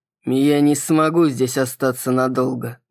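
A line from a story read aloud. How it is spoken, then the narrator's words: Gloomy. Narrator (Russian): мрачно тот, кого она назвала Маркусом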